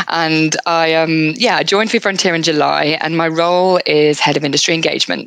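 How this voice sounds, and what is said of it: UK accent, not Australian. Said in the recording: “As everyone can hear from my accent, I am not Australian. I moved from the UK”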